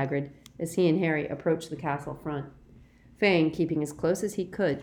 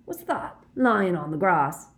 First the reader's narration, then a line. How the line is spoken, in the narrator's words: Hagrid added sharply